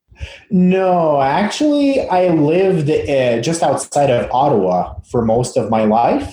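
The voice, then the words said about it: Subtle French-Canadian accent. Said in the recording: “what's that funky accent all about ... It's so subtle ... I'm actually French-Canadian, originally from Quebec ... that's my self-taught English accent”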